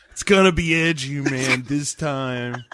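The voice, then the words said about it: 1980s SoCal skater-kid voice. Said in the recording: “your impression of Eli Roth. Doesn't sound anything like him, but ... some sort of like like like nineteen eighties like ... skater kid from like SoCal”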